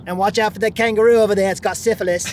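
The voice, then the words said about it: Put-on Australian accent, New York tinge. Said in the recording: “Is that a good Australian accent? ... That was like, like an immigrant, like born in Australia and then moved to like 1920s New York.”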